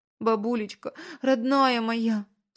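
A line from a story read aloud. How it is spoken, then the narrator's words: Sobbing. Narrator (Russian): всхлипывала она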